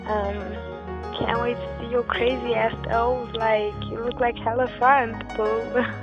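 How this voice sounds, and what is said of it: Rough, impaired-sounding voice. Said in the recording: “sorry for my voice is kind of like crappy right now because I'm fucked, I'm finished, I'm so high, I'm drunk at the same time”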